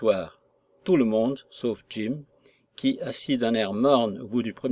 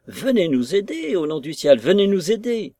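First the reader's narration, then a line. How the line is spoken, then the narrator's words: Pleading and cursing. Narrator (French): suppliant et sacrant à la fois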